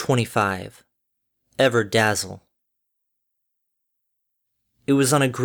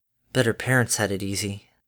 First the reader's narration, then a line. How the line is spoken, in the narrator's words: Harmony dryly murmured